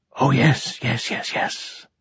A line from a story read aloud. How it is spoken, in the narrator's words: gasped Silenus